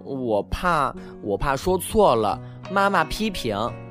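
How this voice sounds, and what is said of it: Quiet, soft timid voice. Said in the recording (Chinese): “小声说”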